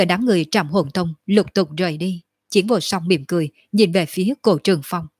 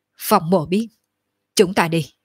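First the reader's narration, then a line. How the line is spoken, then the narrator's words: Cold, suppressed anger. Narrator (Vietnamese): trong lòng Phong Tiếu Thiên rất giận dữ, nhưng cũng chỉ có thể nén xuống, hừ lạnh một tiếng nói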